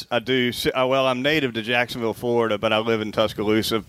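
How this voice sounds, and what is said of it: Genuine Southern American accent. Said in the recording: “to have an actual Southerner feels good ... fake Southern accent, it's nice to hear a real one”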